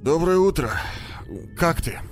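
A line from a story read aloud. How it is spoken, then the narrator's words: Hoarse question. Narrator (Russian): спросил он сипло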